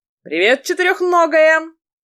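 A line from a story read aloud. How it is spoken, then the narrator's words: Loud greeting. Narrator (Russian): громко поприветствовала ее Алисия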